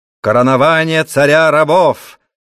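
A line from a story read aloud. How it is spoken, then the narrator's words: Shouting. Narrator (Russian): закричал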